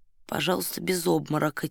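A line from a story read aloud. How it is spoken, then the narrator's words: Quiet. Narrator (Russian): тихо сказал Фандорин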